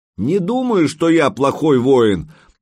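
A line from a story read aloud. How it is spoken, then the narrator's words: Yelled back. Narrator (Russian): заорал в ответ Санек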